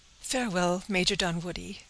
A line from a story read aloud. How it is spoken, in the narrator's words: said the agitated girl, pausing for a moment to gasp for breath